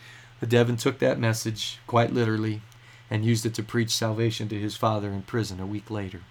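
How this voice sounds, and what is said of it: Usual voice. Nothing is said of it.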